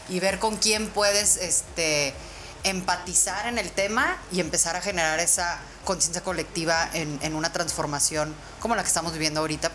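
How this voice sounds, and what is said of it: Polished radio announcer-style voice. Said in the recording (Spanish): “Voz de locutora, voz de locutora”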